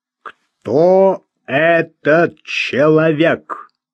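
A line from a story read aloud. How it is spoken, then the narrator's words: Slow, firm question. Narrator (Russian): спросил он медленно, но твердо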